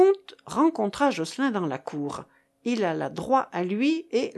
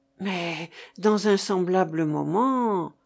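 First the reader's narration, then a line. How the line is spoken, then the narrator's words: Stammering. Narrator (French): balbutia Jocelyn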